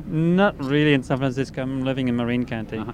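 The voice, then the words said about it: French accent. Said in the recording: “I'm from France... I have simply a different accent than you guys.”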